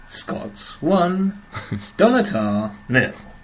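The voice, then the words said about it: Football results announcer impression. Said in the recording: “doing an impression of the football results, otherwise known as soccer”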